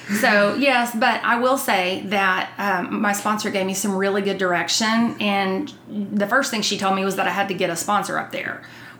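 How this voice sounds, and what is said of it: Texas accent. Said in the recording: “with your accent ... ask what part of Texas I'm from”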